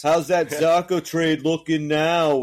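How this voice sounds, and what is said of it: Put-on New York accent. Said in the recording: “Your Boston accent sounds a little bit like your Brooklyn accent ... I wasn't supposed to be a Boston accent ... Anytime I do douchebag, I just go to New York”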